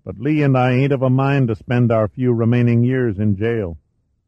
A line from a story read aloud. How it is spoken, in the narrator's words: said sadly